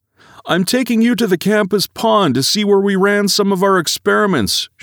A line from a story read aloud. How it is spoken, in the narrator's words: she thunders back